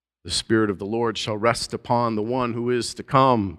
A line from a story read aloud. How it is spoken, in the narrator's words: the prophet said